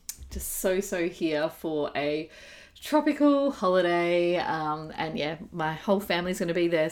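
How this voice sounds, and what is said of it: Excited voice. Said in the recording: “hear the excitement in my voice”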